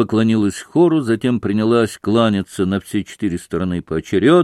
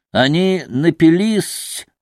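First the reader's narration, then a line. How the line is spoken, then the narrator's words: Giggling explanation. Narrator (Russian): разъяснил, хихикая, Максимов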